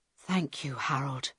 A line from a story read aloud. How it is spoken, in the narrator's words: Carl whispered